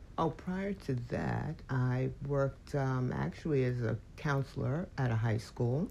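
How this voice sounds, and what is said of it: Polite formal phone voice. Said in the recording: “doing your phone voice.”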